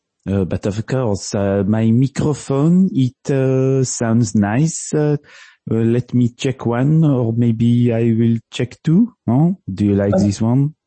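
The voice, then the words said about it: Put-on French accent. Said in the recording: “do it in a French accent”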